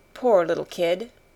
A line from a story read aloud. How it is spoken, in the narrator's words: said